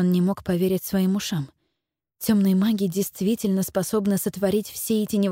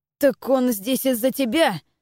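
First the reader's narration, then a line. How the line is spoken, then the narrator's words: Yelled. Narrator (Russian): завопил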